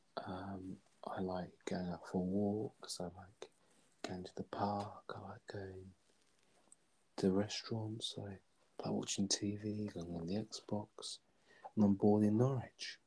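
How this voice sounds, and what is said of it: Posh London Hertfordshire English accent. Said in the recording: “you just have like a posh accent ... London, well, sort of Hertfordshire-ish accent ... it's a very unique accent”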